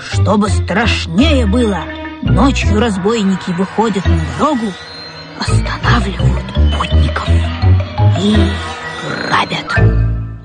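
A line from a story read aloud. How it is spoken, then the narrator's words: Ominous whispered warning. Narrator (Russian): зловещим шепотом предупредил Бобик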